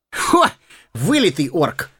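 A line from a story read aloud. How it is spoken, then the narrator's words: Chuckling. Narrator (Russian): хохотнул Сэмми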